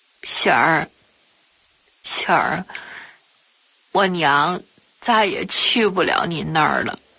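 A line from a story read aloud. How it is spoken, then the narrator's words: Sobbing, trembling. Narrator (Chinese): 突然哇的一声哭了起来，哆哆嗦嗦地和我说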